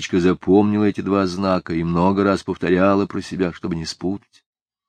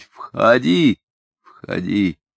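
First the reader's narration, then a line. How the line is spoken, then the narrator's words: Calm. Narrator (Russian): она должна спокойно сказать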